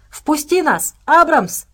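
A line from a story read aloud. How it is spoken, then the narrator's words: Shouted. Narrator (Russian): прокричала Настя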